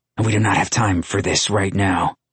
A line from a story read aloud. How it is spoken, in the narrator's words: Luca growled